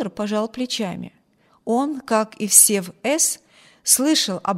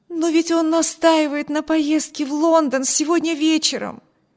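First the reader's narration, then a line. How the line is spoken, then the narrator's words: Exclaimed. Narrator (Russian): воскликнула Эми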